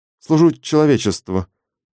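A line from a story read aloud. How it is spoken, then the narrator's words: Mumbled. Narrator (Russian): промямлил Клим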